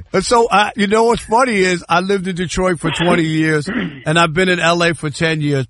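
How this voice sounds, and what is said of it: New York accent. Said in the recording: “I love your accent being like from out east and whatnot... You think I'm from New York?... It sounds like my cousin Vinny... the New York accent just won't go anywhere.”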